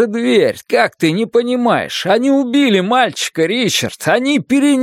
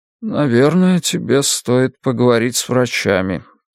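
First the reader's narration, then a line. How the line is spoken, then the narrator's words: Quiet. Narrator (Russian): тихо сказал он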